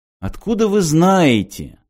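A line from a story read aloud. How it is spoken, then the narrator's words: Exclaiming. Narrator (Russian): воскликнул Мартин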